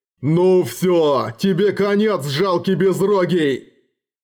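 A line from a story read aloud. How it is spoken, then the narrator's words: Growling. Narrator (Russian): Ербог с рычанием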